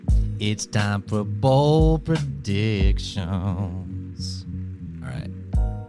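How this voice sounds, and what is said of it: Whispering. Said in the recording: “You can hear me whispering.”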